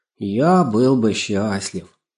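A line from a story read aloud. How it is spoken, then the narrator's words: Sighing. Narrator (Russian): вздохнул Лешиков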